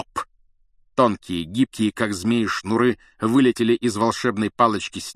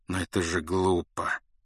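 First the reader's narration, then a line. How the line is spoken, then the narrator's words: Soft remark. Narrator (Russian): заметил люпин мягко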